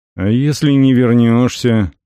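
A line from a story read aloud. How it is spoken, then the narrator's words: Gloomy question. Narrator (Russian): мрачно спросил Истон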